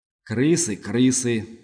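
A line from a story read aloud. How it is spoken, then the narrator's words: Gruff beast mutter. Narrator (Russian): буркнул зверь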